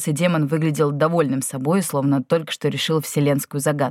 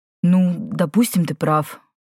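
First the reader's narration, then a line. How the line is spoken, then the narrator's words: Uncertain agreement. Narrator (Russian): неуверенно согласился Иен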